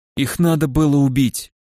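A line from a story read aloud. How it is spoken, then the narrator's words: Calm, old man. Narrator (Russian): спокойно произнес старик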